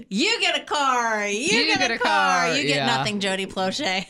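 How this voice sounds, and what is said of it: Imitates another person's voice. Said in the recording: “That was my Oprah impersonation.”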